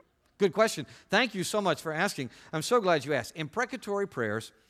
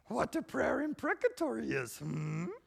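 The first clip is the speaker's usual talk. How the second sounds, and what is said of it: Yoda impression. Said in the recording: “in that Yoda accent that you love to throw down”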